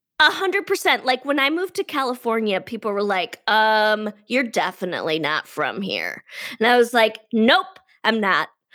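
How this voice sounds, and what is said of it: Nasal Detroit accent. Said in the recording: “I definitely have one ... I'm from Detroit and I speak out of my nose. So I'm very nasally.”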